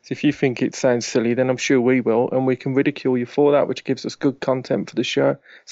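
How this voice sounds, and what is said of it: British regional accent. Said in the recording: “If you were from the UK, you'd know that my accent is regarded as the F-tard accent of the country. It's just not cool.”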